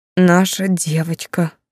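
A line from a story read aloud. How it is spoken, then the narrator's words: Breathy exhale. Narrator (Russian): выдохнул в затылок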